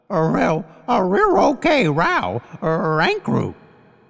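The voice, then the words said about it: Thick canine doggy drawl. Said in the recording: “a doggy accent ... we have a thick canine accent, or doggy drawl, if you will. And you see, every word starts with R, but is otherwise the same.”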